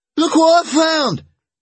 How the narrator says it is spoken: Alan yelled

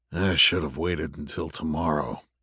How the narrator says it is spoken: he muttered

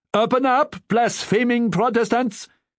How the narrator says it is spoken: This one shouted in an educated voice

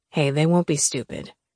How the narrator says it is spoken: he said softly

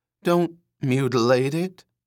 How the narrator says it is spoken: he said wheezingly, imploringly

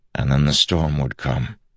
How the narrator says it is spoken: Dalinar replied softly

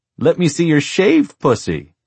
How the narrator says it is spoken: giggled harder

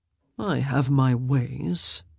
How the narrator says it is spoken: he murmured

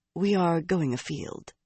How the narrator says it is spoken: Missouri said quietly

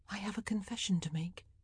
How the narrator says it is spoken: she said, her voice quiet and even just a touch shy

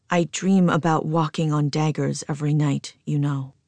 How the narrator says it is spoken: he murmurs tenderly

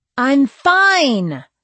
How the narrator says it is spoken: I snapped

